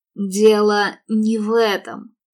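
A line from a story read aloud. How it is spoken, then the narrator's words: Angry, bitterly despairing. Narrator (Russian): рассерженно бросил он, и в голосе слышалось горькое отчаяние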